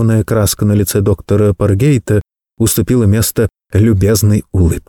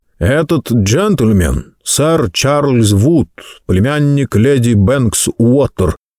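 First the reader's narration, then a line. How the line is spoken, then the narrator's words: Deep bass voice. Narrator (Russian): пробасил проводник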